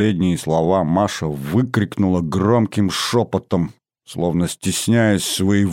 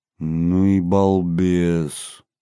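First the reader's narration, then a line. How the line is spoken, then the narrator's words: Slow, stunned. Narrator (Russian): медленно проговорил я, совершенно потрясенный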